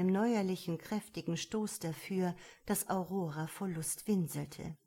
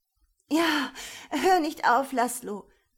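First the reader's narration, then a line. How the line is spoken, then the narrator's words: Gasping, intensely aroused. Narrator (German): keuchte Aurora mit einem Mal, heftiger erregt als jemals zuvor in ihrem Leben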